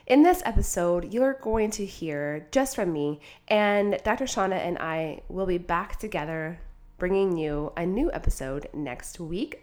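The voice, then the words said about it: Congested voice, sounds like a cold. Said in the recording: “if you're wondering why I sound like I have a cold, well, it's because I do”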